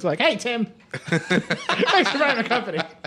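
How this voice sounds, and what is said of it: Imitates another person's voice. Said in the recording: “a great Jimmy Ive impression ... That's really good ... that's really bad”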